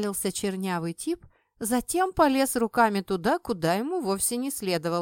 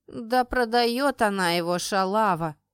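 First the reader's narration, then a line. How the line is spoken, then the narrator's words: Muttered through teeth. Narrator (Russian): Процедил сквозь зубы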